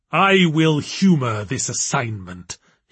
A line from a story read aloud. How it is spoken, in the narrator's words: he growled